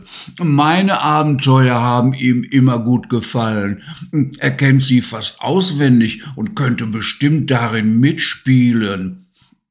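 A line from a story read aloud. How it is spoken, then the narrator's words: Little lion roaring. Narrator (German): brüllte Simba, der kleine Löwe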